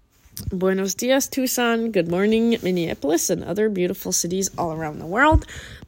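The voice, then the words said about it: Scratchy voice. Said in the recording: “Sorry about my voice. My voice is a little scratchy. ... Mainly just because I'm having a cough.”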